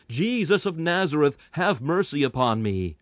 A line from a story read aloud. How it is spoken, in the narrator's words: shout aloud